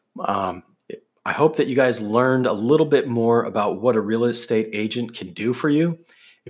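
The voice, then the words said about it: Hoarse, worn-out voice. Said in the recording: “my voice is trashed”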